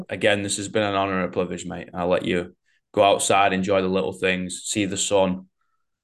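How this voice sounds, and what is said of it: Strong, hard-to-understand accent. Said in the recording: “My accent's hard enough to figure out what I'm saying.”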